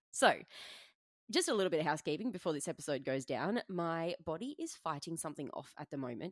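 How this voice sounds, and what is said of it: Raspy, hoarse voice. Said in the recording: “my throat is very raspy. So, if I start to lose my voice”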